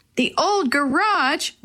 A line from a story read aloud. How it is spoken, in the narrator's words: Willie shouted